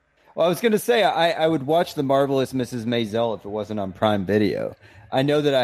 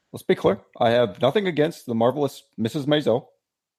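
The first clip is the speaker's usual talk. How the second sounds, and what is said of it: Imitates another person's voice. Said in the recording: “That was a great impression ... It's really bad.”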